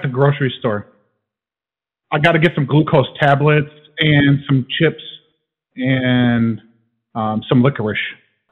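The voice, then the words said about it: New York or New Jersey accent. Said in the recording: “you sound like you're from New York. Are you from New York or New Jersey? ... New Jersey, yeah. Yep, Trenton, New Jersey.”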